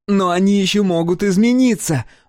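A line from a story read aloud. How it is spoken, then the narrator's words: Shouted. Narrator (Russian): выкрикнула Маури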